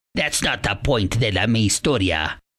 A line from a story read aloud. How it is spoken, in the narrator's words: replied Grandpa somewhat gruffly